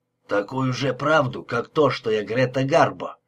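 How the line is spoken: Grumbling. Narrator (Russian): проворчал Лепски

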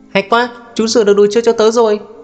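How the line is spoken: Child's excited shout. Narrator (Vietnamese): một cậu bé hét to

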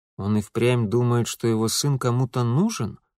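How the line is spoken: Through gritted teeth. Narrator (Russian): процедил Митя

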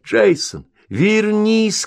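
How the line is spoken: Shouting. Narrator (Russian): кричала Линда

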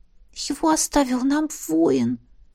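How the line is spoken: Timid whisper. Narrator (Russian): шепнула, робко ... Миара

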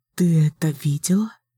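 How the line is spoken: Soft frightened. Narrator (Russian): мягко спросила Никки испуганным голосом

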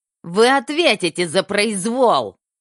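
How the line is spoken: Shrill, nasty voice. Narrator (Russian): Голос доктора был мерзким, противным и визгливым

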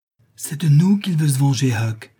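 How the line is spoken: Cried out. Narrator (French): s'écria-t-il

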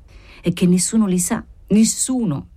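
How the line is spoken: Exclaimed. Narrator (Italian): esclamò

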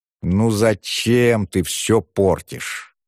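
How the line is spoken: Drawn-out drawl. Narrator (Russian): протянул Петрищев

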